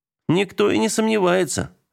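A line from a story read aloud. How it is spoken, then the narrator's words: Laughing. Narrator (Russian): рассмеялся Богданов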